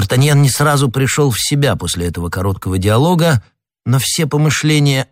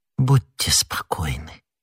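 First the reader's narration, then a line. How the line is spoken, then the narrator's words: Whisper. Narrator (Russian): прошептала миледи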